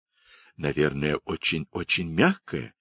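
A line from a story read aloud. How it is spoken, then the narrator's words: Whispered. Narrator (Russian): шепнула Даша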